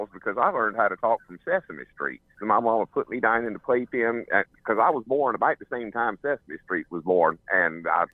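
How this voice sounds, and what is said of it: North Carolina Southern accent. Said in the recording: “If you lived in North Carolina, if you lived there your whole life, how come you don't have an accent? ... He does. ... He does have an accent.”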